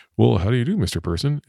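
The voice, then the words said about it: Weird lower voice. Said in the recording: “in that kind of like weird lower voice”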